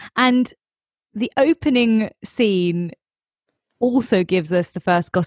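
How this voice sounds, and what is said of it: Usual voice. Nothing is said of it.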